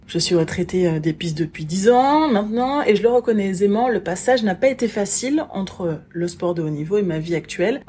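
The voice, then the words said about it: Antillean French accent. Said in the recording (French): “Une antillaise, comme tu l'entendras sans doute parfois grâce à mon accent”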